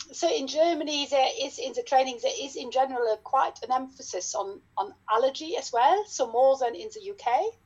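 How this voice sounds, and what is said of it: German-accented English. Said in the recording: “I trained in dermatology back in Germany. Yes, you can hear from my accent probably.”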